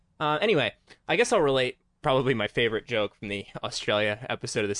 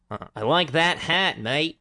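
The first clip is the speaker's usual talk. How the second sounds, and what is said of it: Weak attempt at Australian accent. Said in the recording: “I'll work on my Australian accent a little bit here ... it's going to sound bad ... Oh, no. Bad. The mate there was okay.”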